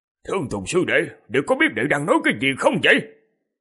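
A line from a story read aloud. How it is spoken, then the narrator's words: Shocked angry scolding. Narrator (Vietnamese): Đạo Huyền chân nhân biến sắc, quát mắng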